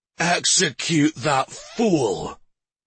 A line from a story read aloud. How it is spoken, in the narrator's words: he growled